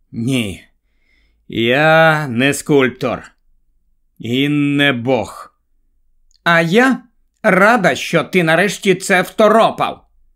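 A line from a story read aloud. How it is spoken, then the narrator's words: Weary. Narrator (Ukrainian): затремтів з огиди і мерщій знищив ту страховісну мару і промовив втомлено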